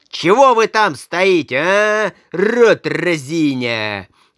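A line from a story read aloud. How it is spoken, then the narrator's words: Angry shout. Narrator (Russian): крикнул карлик, и его землистое лицо побагровело от злости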